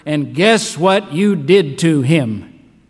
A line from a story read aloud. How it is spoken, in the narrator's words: Peter maybe thundered